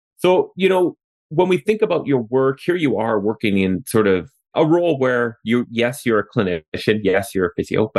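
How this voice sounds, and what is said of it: Canadian English accent. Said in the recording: “as you can tell from my accent, I'm still up here in Canada”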